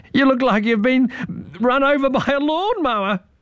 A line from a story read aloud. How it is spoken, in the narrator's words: giggled Irene